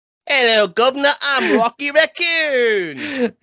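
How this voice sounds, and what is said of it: Put-on British accent. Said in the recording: “He had a British accent originally... if they had kept him British”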